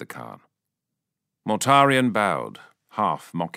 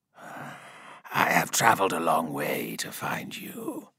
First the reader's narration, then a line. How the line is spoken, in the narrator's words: rasped